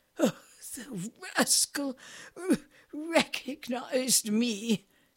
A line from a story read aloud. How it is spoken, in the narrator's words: sputtered in her horror